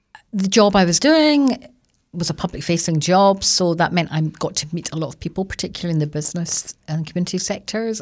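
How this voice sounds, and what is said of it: Scottish accent. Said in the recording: “people love Scotland, so there was, they hear the accent.”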